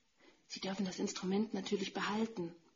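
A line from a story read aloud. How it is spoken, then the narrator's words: Whispering. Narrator (German): flüsterte zu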